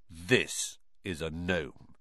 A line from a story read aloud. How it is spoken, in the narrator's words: he said grimly